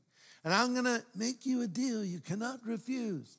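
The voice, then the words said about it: Bad Godfather impression. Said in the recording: “Bad Godfather imitation.”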